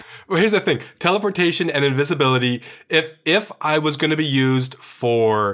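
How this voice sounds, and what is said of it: Usual voice. Nothing is said of it.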